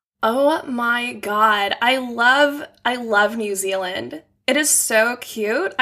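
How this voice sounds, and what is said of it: Put-on American Valley Girl accent. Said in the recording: “do your best American accent ... this is the Valley Girl version, but it's the only one I can do.”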